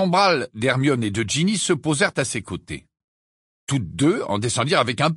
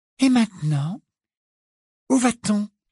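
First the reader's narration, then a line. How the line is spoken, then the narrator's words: Polite, interested question. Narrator (French): demanda-t-elle à Harry d'une voix polie et intéressée, comme s'il s'agissait d'une agréable excursion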